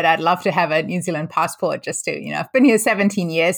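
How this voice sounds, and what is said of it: Hard-to-place mixed accent, Kiwi-like. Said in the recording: “You sound a lot more like a Kiwi, too ... I just have a very funny, weird combination of accents that most people struggle to place ... they just assume that it's a Kiwi accent”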